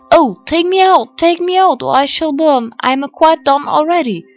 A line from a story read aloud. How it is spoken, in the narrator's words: the bread cried out